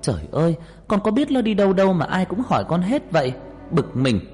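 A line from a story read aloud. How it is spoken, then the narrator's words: Exasperated shout. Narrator (Vietnamese): mọi người cứ liên tục hỏi khiến tôi bực mình hét lên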